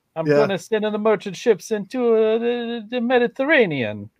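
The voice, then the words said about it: Exaggerated put-on Italian accent. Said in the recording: “my stupid Italian accent”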